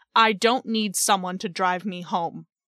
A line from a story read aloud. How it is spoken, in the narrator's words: said sharply, as if I were an idiot for suggesting it